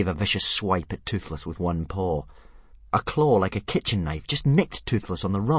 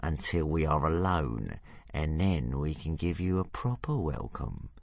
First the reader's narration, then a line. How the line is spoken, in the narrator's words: purred Hookfang menacingly